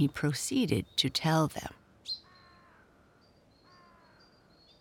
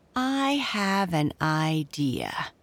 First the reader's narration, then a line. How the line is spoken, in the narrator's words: said Derry Drew slowly